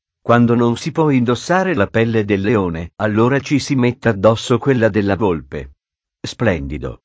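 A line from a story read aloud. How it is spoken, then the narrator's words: Plain. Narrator (Italian): disse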